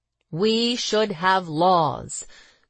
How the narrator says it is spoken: Grossman started, in his somber, melodious voice

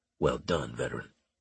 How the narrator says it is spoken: Harris murmured

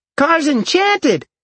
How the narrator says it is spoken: Dalen laughed

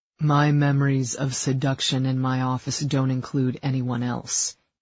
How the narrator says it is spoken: he said dryly

